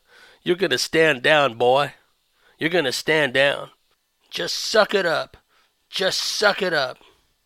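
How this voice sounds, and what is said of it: Put-on American accent. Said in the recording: “I can't do an Australian accent, so I'll do an American accent.”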